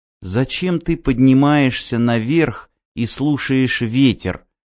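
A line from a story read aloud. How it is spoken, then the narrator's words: Whisper after long pause. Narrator (Russian): прошептала Ева после длинной паузы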